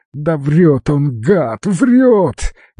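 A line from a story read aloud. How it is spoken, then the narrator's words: Frantic screaming. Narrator (Russian): истошно кричал Алекс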